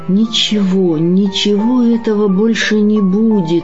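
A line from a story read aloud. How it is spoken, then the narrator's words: Sad inner repetition. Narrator (Russian): печально повторил про себя Сергей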